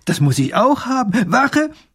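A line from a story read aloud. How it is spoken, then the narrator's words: Delighted call. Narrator (German): ruft der kleine Großherzog erfreut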